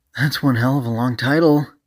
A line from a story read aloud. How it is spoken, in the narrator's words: AG called out